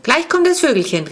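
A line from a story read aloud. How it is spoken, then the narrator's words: Call. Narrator (German): rief er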